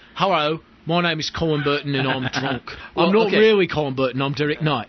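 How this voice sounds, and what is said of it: Put-on Cockney accent. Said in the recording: “I'll do it for him. ... if you're going to do the Cockney accent, you've got to make the L's R's. The L's become R's”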